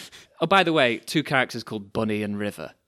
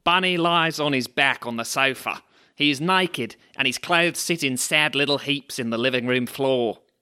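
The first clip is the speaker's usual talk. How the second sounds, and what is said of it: Put-on Australian accent. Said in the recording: “Shall I do an Australian accent? ... is that Australian?”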